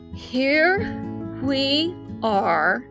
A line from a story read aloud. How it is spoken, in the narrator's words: said Rabbit, very slowly and carefully